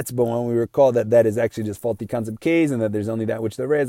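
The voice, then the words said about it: Speaking very fast. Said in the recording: “that was all said very fast ... said it so fast”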